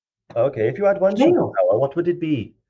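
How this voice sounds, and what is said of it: Put-on Welsh accent. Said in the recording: “I'll stop doing the Welsh accent now”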